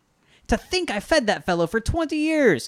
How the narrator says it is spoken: exclaimed the old woman in anger

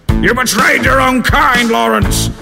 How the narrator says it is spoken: shouted Sebastian, as the roof of the cavern began to shake itself apart

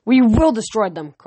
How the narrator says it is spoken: Kronos roared

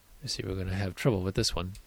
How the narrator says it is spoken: The woman muttered

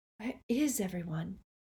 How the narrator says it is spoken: whispered Hermione

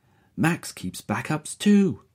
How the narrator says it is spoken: she exclaims

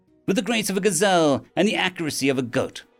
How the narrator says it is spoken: Maharia said brightly

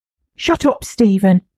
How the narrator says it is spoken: Michael snapped

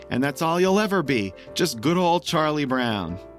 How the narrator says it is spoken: Patty's now screaming

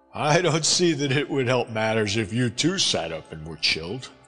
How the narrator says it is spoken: I laughed

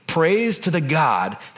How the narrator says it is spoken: Nebuchadnezzar exclaimed

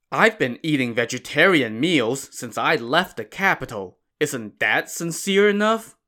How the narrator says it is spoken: Marshal Hong grumbled

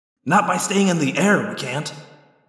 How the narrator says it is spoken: I said grimly

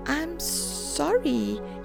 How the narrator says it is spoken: spluttered

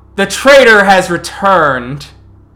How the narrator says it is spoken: shouting through the Cairn

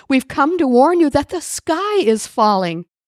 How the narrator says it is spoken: cried Chicken Little

